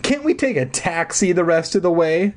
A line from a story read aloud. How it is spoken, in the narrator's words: Mark whined